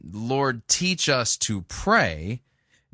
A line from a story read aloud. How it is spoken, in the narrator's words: Jesus said